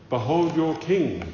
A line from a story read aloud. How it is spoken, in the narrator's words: said Pilate